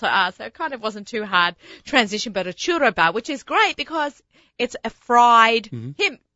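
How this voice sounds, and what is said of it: Australian accent. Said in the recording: “I have an Australian accent. You know, I have an Australian accent”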